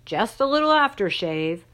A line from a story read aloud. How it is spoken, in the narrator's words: Dad hollered down to us